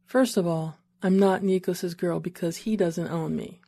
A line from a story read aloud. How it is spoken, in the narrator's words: she said, and despite her smile, her tone was serious